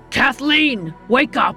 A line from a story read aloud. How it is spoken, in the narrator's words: shouted again